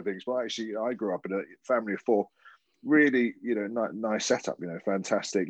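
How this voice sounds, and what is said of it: Estuary English accent. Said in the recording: “I've got this estuary English in my accent ... I struggle with my THs and my Fs”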